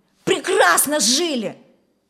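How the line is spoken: Shouting. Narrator (Russian): закричал Федор

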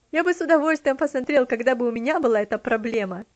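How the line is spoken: Laughing reply. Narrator (Russian): смеясь, ответил он

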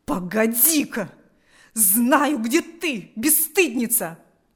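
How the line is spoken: Frenzied furious shout. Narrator (Russian): Закричала Марфа в исступленной ярости

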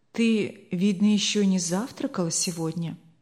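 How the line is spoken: Master, quiet and calm. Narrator (Russian): заметил хозяин все тем же тихим, спокойным тоном

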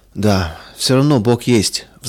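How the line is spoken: Sighing. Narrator (Russian): вздохнул он

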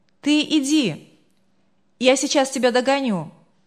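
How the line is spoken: Shouted. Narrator (Russian): крикнул девушке

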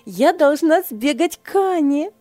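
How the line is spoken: Exclamation. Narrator (Russian): воскликнула Ева

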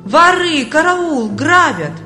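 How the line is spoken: Loud wailing. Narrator (Russian): Бедняга громко завопил

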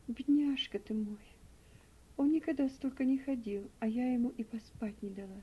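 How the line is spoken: Sigh. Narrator (Russian): вздохнула Элиза

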